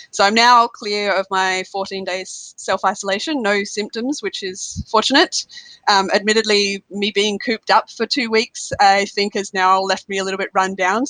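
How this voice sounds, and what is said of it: Stuffy, slightly congested cold voice. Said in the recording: “I do actually have a common cold, which you can probably hear in my voice a little.”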